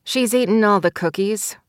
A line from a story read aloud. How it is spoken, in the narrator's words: Stella said dryly